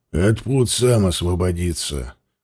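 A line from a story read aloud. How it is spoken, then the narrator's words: Gruff mutter. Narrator (Russian): буркнул он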